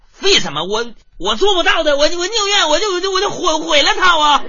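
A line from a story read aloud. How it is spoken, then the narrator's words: Angry, stammering. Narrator (Chinese): 我妈一听就怒了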